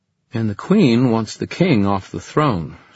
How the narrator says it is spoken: said Emma

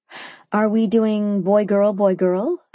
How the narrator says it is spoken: I asked, laughing

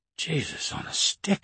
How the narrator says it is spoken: I muttered

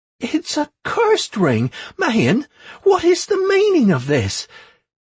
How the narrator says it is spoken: Tisha exclaimed

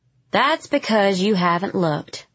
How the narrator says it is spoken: he said

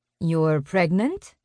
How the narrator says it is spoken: the enforcer asks in her lilting Spanish accent

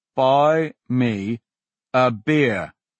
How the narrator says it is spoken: Kessel repeated slowly

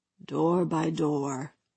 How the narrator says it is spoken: Ba Lut said softly

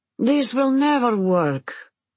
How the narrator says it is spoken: Anna groans

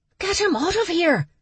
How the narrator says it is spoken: the she-tiger wedding planner whisper yelled

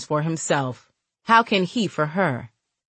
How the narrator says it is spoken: He asked in a serious tone

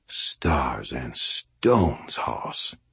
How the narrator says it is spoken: Ebenezer said quietly

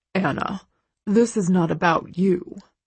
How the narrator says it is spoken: Carrick murmurs reassuringly

